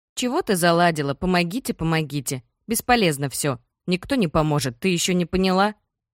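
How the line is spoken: Rough voice through speakers. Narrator (Russian): Его слова звучат грубо даже в динамиках

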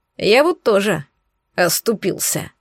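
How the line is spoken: Grumbling. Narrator (Russian): проворчал Олаф

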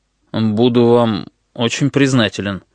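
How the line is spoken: Uncertain voice. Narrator (Russian): неуверенным голосом ответил Слейд

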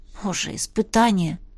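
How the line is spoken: Muttering. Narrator (Russian): пробормотала я

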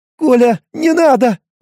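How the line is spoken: Whimpering. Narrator (Russian): заскулила она

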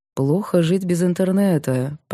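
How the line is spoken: Purring. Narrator (Russian): промурлыкал Илюшин

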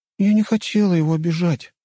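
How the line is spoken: Affectionate voice. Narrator (Russian): ласковым голосом сказала Любава

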